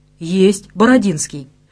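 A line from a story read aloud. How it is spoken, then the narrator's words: Quick correction. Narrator (Russian): быстро исправил положение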